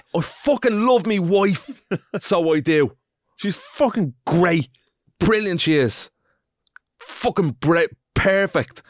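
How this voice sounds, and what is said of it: Angry hate-comment accent voice. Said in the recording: “I'm staying in that hate comment voice ... in that accent, it just goes”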